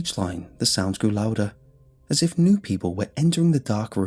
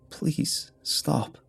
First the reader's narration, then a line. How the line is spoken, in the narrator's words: I said, but my voice was too dry to make sound